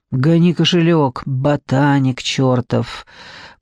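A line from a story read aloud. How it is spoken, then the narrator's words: Menacing hiss. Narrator (Russian): прошипел наркоман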